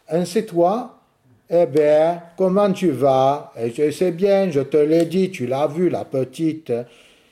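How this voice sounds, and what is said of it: Sète accent, dropped word endings. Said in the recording (French): “la prononciation à la sétoise ... Ça nous vient du napolitain où on a toutes les finales qui tombent ... c'est un accent napolitain transposé à la prononciation française”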